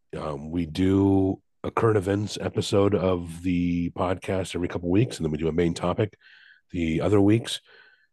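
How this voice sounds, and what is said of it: Sick voice, sounds under the weather. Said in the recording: “I am under the weather ... I sound a little different than usual ... any coughs or whatever that you hear”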